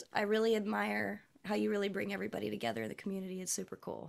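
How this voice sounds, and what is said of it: Slightly scratchy voice. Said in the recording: “My voice is a little scratchy because I'm sick today”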